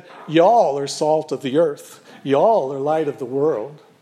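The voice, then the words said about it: Poor put-on Southern US accent. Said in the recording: “Pardon my lousy southern accent.”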